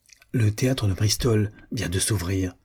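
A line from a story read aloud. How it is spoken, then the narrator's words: Sudden whisper in ear. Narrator (French): murmura-t-elle tout à coup à l'oreille de son père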